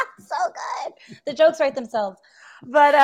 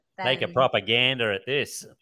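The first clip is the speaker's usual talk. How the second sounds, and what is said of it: Put-on Australian accent. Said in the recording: “If I say that with an Australian accent”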